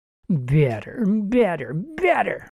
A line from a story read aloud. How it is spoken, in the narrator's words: the woman mocked